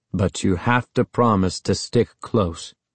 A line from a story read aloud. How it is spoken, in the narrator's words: Uncle Ben said sternly